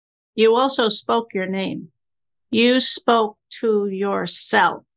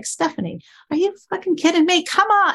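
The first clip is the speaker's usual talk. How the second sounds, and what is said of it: Yelling at oneself. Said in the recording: “when I'm yelling at myself”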